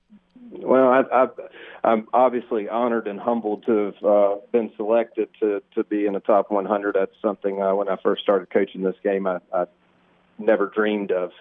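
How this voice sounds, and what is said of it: Eastern North Carolina Southern accent. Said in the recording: “I grew up in Eastern North Carolina, which I hope you don't have to translate too much to your northern listeners, my accent.”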